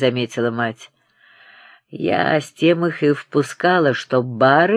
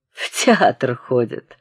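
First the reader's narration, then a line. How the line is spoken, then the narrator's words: Spiteful laugh. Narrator (Russian): засмеялся со злобой сын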